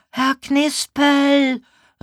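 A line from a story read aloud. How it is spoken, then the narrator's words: Calling loudly. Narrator (German): rief laut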